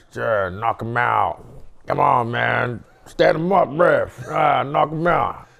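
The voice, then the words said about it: Put-on American accent. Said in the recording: “That's a pretty good American accent.”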